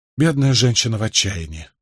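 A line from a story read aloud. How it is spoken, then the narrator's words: Sympathetic sigh. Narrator (Russian): сочувственно вздохнул Николас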